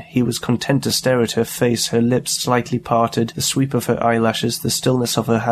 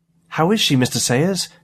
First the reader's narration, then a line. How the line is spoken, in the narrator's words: Jane asked breathlessly